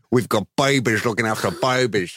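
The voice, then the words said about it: Terrible put-on Boston accent. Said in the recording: “That's a really terrible Boston accent.”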